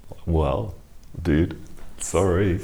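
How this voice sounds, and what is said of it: Put-on American accent. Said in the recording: “Was that your American accent?”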